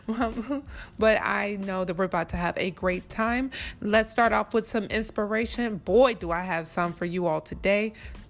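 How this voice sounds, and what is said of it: Slightly raspy voice. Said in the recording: “If you can hear my voice, it's a little raspy, darling.”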